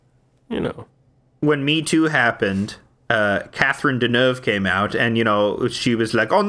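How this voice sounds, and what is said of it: Usual voice. Nothing is said of it.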